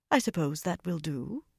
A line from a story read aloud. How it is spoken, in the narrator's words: Elaine replied calmly